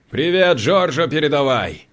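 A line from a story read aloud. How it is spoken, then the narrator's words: Shouting. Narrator (Russian): крикнул Данте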